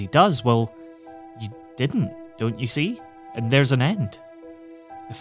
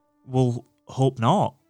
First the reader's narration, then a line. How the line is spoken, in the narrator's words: said McFarlane